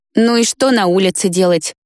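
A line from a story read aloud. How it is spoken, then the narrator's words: Grumbling. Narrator (Russian): проворчал Вик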